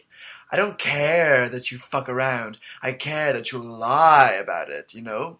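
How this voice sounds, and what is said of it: Imitation of Meryl Streep's cadence. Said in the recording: “this is like Meryl's cadence down to a T”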